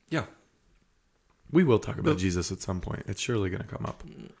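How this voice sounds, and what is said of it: Hoarse, recovering lost voice. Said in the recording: “I just lost my voice this week. I'm recovering.”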